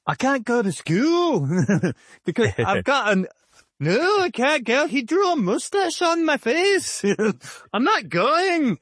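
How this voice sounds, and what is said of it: Put-on Irish or Scottish accent. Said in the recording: “I think she's from like Ireland or Scotland ... Nice accent too. That's pretty good.”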